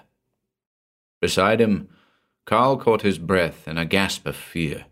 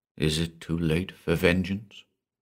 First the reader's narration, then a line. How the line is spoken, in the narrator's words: Johann asked quietly